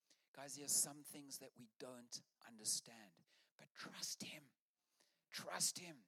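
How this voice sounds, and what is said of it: Usual voice. Nothing is said of it.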